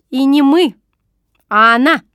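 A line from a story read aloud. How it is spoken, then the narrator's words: Angry correction. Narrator (Russian): сердито поправила она меня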